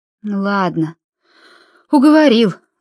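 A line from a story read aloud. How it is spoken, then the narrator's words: Sighing woman. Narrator (Russian): вздохнула миссис Гонт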